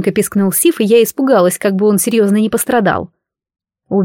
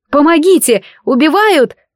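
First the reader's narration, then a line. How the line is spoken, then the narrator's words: Yelling. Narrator (Russian): орала я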